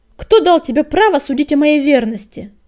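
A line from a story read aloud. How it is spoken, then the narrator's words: Menacing shout. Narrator (Russian): Грозно крикнул он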